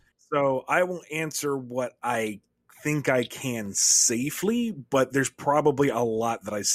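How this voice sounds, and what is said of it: Usual voice. Nothing is said of it.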